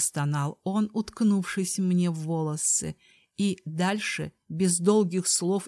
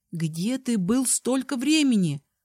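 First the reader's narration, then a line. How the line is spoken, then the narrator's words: Indignant hiss. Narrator (Russian): Возмущенно прошипела я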